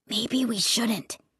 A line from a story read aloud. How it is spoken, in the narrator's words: he whispered